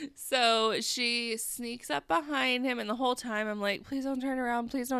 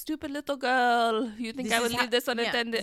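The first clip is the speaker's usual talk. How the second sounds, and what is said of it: Put-on French accent. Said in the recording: “That's a pretty good French accent.”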